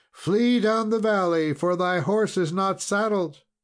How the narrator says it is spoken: she cried out to Beaumains

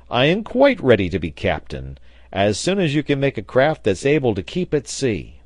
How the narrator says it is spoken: cried the sailor

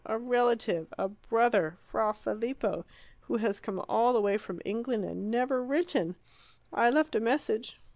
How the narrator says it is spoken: cried

